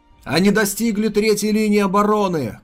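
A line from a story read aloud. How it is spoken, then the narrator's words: Shout. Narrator (Russian): крикнул Ли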